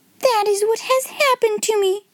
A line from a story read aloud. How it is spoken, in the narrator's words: she cried